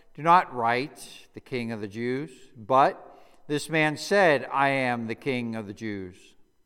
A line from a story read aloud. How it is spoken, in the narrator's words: Pilate answered them,